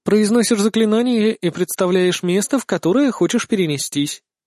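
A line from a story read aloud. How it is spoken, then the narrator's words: Plain. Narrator (Russian): ответила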